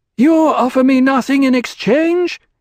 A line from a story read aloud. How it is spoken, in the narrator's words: he said, his voice loud